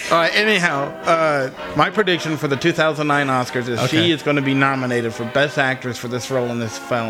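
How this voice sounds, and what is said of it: Southern American accent. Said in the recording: “I got that southern accent ... I just got a mouthful of redneck in me”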